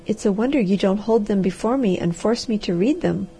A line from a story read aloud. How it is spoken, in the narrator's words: she said